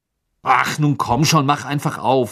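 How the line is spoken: Angry. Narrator (German): sagte er wütend

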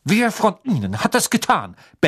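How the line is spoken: Barked. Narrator (German): bellte er

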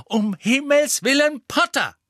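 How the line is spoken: Angry. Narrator (German): sagte Professor McGonagall wütend

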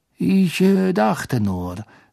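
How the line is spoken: Forced calm voice. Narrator (German): sagte Snape mit gezwungen ruhiger Stimme

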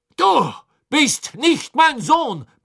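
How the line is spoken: Barked. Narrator (German): bellte Crouch

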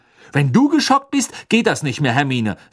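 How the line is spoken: Angry. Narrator (German): sagte Ron wütend

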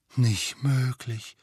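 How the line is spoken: Breathy whisper. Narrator (German): hauchte George

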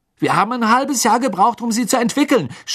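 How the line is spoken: Angry shout. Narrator (German): schrie Fred seine Mutter an, als sie die Toffees wegwarf

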